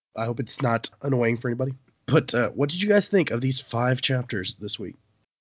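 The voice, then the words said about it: Congested, rough voice from a cold. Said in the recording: “I'm getting over a cold here, so my voice is a little messed up.”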